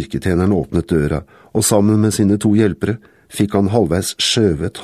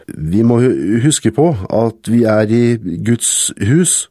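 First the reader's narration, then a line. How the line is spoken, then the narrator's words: Stammering. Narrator (Norwegian): stammet han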